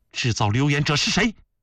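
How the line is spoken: Stern questioning. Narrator (Chinese): 孝庄厉声询问

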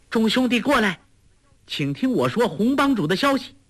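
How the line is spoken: Calling out. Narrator (Chinese): 黄蓉又叫

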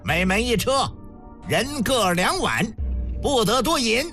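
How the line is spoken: Loud command. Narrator (Chinese): 高声下令

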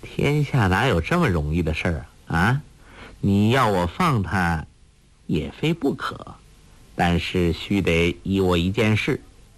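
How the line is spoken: Laughing. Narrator (Chinese): 欧阳克笑道

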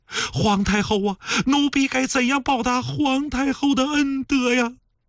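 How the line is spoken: Sobbing, pained, grateful. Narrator (Chinese): 抽泣痛苦……感激

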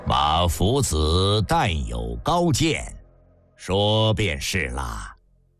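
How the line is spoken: Flat, even tone. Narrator (Chinese): 老廉颇平平淡淡

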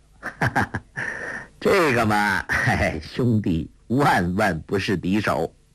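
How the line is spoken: Laughing. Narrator (Chinese): 朱仝笑道

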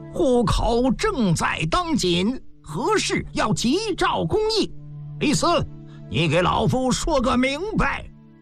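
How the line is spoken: Loud shouting. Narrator (Chinese): 郑国大喊起来

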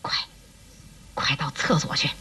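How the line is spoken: Quiet. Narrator (Chinese): 一骑……趁机小声地对刘备说

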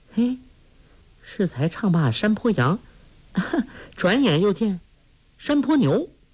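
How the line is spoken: Laughing. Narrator (Chinese): 黄蓉笑道

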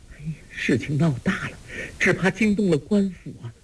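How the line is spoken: Frightened trembling voice. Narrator (Chinese): 包惜若早已经吓得脸上全无血色，颤声说

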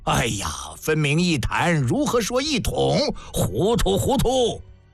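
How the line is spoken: Clamoring. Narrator (Chinese): 又是一阵嚷嚷

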